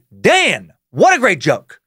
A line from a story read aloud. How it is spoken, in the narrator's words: Robin fucking Williams shouting